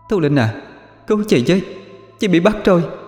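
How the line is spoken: Pained scream, then moaning. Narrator (Vietnamese): thét lên một tiếng đầy đau đớn, thế rồi rên rỉ

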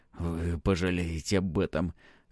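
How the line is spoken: Hoarse pronouncement. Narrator (Russian): хрипло вещает он

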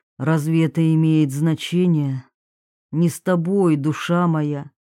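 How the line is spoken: Sighing. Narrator (Russian): Маргарита вздохнула

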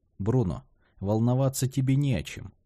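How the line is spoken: Soft. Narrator (Russian): мягко ответил Асторе

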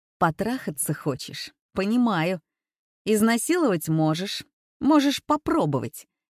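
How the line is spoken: Hysterical laugh. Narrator (Russian): истерично хохотнула

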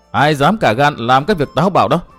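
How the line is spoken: Cold scoffing young woman. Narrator (Vietnamese): Thiếu nữ hừ một tiếng lạnh lùng

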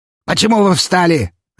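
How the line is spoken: Barking. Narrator (Russian): рявкнул он

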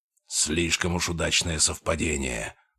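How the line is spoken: Low guttural hostile growl. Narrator (Russian): прорычал он, и его голос был низким, гортанным, полным неприкрытой враждебности

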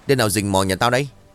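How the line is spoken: Loud angry shout. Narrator (Vietnamese): Miệng của ông quát lớn

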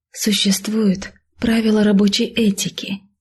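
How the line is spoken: Near whisper. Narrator (Russian): почти прошептала ты

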